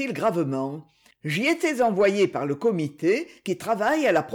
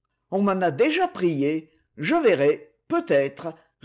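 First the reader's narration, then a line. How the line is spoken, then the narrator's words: Absent-minded reply. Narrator (French): répondit-il d'un ton distrait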